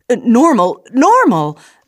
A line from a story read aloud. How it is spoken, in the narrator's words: the officer spluttered